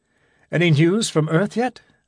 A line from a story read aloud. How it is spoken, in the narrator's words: asked Gibson anxiously